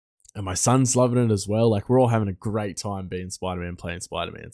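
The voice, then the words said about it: Excited voice. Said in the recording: “you can hear it in my voice. I'm so excited.”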